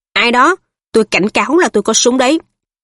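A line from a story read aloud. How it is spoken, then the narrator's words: Sharp shout. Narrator (Vietnamese): Ông quát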